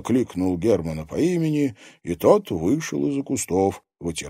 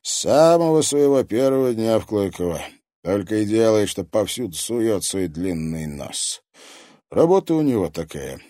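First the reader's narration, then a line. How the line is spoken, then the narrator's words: Sighing. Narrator (Russian): вздохнул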